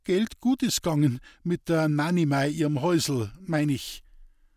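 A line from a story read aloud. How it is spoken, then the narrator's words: Stammering. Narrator (German): stammelte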